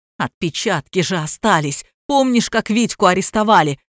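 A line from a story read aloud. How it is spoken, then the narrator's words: Exclaiming. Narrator (Russian): воскликнул Кровопийцев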